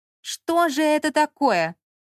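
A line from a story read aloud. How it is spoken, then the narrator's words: Ghost shouting. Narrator (Russian): кричал призрак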